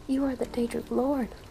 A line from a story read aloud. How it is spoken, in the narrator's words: Weedle exclaimed